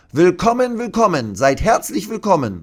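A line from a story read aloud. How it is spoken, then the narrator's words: Calling out. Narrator (German): ruft sie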